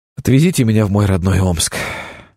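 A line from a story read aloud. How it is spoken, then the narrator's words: Exasperated hiss. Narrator (Russian): в сердцах прошипел один из туристов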